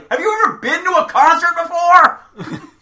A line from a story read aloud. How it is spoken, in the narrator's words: actually turn around and shout